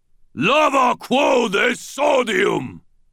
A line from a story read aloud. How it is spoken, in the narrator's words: bellowed, his voice stentorian, too enormous to come from a human throat